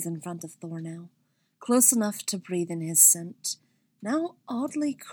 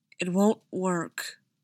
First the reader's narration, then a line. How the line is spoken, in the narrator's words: said Thor, his voice raw as if he was trying to convince himself